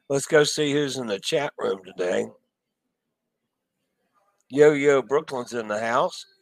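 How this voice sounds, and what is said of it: Worn-out, strained voice. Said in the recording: “my voice is about shot ... Been through a lot of usage here in the last couple days”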